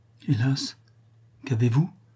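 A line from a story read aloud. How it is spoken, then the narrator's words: Trembling murmur. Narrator (French): murmura d'une voix tremblante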